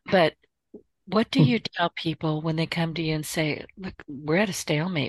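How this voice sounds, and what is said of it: Strained, fading voice. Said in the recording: “I'm losing my voice today”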